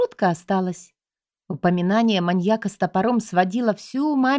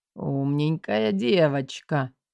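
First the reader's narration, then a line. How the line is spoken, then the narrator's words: Hoarse snort from behind. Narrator (Russian): хмыкнул сзади хриплый голос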